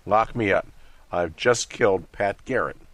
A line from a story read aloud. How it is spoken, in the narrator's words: Brazell burst into the office and exclaimed